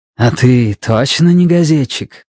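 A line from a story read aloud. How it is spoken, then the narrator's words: Low hoarse question. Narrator (Russian): спросила Рошель низким хриплым голосом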